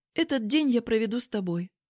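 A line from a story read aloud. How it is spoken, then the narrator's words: Calmer. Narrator (Russian): более спокойно подытожила я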